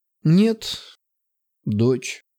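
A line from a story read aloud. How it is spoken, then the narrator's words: Sighing woman. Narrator (Russian): Вздохнув, сказала повитуха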